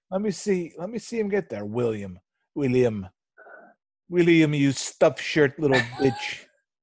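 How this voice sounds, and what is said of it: Put-on English accent that drifts. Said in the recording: “I started out as an English accent, then went somewhere else.”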